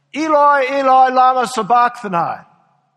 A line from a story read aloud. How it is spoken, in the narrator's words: Jesus cried out in a loud voice